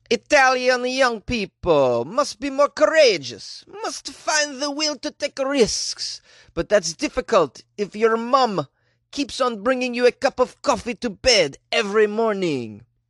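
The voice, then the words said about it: Attempted Italian accent. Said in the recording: “I don't know what that accent was. I was attempting Italian.”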